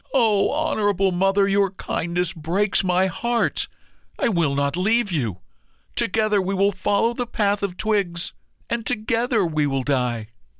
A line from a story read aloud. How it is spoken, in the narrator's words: His heart broke within, he cried aloud